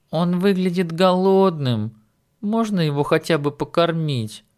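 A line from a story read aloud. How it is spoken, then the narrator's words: Pleading. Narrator (Russian): спросила Джул молящим тоном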